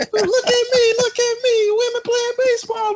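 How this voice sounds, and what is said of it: Imitates another person's voice. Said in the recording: “that was a good impersonation. ... Very accurate”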